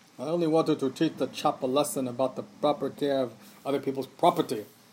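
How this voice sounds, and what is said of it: Deep baritone British accent. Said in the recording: “this deep baritone, see, and this British accent”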